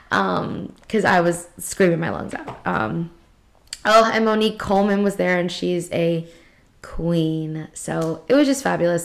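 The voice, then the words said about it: Hoarse, raspy voice. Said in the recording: “why my voice sounds a little like ... raspy ... that is why I sound a little hoarse.”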